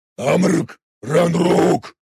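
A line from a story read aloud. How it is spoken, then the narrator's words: Sudden commanding bark. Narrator (Russian): рявкнул вдруг за моей спиной властный голос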